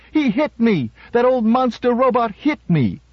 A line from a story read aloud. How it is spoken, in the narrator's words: Hortense screamed